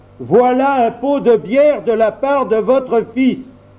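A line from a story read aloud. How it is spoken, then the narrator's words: Shouting louder and louder. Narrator (French): Il cria même encore une fois, puis une quatrième, encore plus fort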